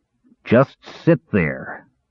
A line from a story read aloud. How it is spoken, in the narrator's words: growled Caramon